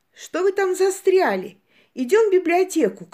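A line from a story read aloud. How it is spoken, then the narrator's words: Impatient shout. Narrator (Russian): крикнул нам Джек, которому, видимо, надоело торчать в актовом зале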